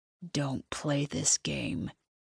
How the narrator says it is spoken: he growls

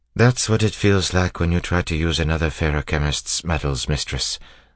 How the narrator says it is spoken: Sazed said, sighing

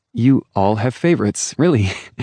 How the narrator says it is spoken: Wynne laughed

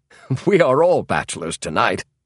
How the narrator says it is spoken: laughed Hay

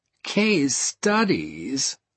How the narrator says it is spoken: I groaned

